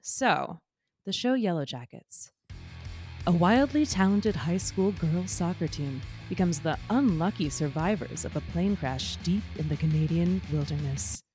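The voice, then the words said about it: Dramatic movie trailer voice. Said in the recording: “my trailer voice ... very like movie phone voice ... I'm not quite there”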